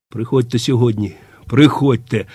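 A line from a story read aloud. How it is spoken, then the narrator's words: Very quiet whisper. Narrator (Ukrainian): прошепотів він аж надто тихо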